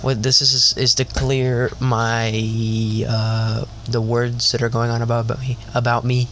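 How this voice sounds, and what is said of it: Upset, stuttering speech. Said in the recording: “I'm so upset that I'm stuttering”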